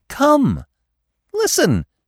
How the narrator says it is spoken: cried excitedly

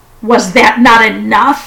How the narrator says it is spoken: demanded furiously

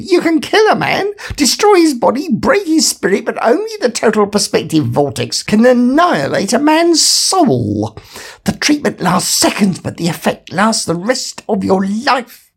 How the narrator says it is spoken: said Rooster urgently

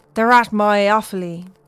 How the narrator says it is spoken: Brez blurts out

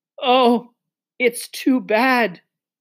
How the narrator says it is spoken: sobbed Lucy

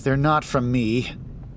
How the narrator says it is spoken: he'd said

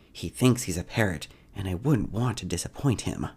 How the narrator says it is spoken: in a whispered voice, Kezia states

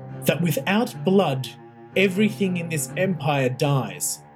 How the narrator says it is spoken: she shouted at Roth, her voice thick with emotion

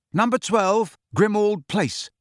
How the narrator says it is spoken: Harry said loudly and clearly

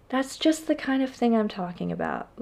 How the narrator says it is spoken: Leslie sighed

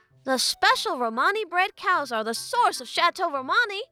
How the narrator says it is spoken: Romani exclaimed, reciting a well-rehearsed talking point

